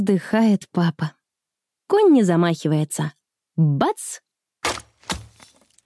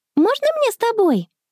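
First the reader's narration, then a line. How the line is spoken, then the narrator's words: Joyful question. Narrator (Russian): радостно спрашивает Конни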